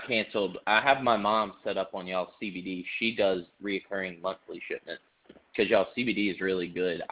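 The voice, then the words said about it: Speaks with a regional accent. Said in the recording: “accent too, because if I say it, I just say Summerford, and I don't say it how it should be pronounced because of my accent.”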